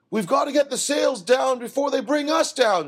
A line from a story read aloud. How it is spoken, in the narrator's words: shouted Bob